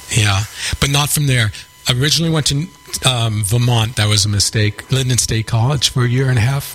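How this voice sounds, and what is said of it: New York accent. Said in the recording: “you haven't lost your New York accent”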